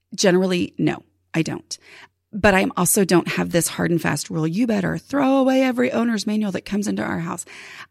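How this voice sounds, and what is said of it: Strained voice from a sore throat. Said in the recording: “We're going to hope that my voice is better at some point... this throat thing is hanging on”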